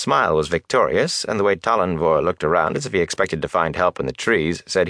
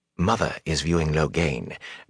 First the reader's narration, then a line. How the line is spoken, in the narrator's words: Gawain said softly